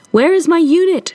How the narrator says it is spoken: she shouted over the din

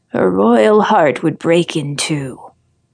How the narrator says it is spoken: it groans

